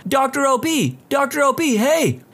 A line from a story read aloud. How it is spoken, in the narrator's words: some guy yelling